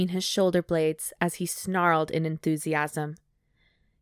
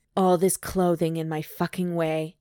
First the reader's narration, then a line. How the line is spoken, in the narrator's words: he growled